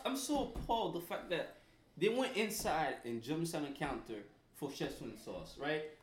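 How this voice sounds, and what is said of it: Haitian accent. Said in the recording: “the only Haitian guy I know that will still try and pronounce words he cannot pronounce ... hating on my accent. That's all. Hating on the accent.”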